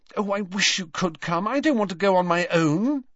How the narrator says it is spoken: said Hermione anxiously

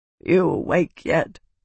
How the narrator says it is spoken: croaked a voice from behind her

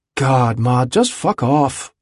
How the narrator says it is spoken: he'd said, wearily, sick of her wailing and quivering

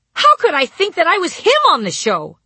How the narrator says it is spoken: I cried, beef blood dribbling down my chin

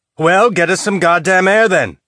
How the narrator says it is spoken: Ashford shouted

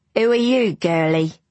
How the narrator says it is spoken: she said in a muddy Cockney voice

